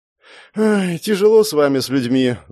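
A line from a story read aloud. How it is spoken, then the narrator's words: Sighing. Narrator (Russian): вздохнула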